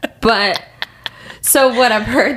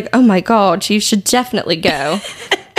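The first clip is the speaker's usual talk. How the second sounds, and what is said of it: Badly done put-on accent. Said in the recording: “That was a horrible accent. I cannot do accents.”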